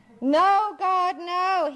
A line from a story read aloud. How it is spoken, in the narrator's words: he shouted out more hopeful now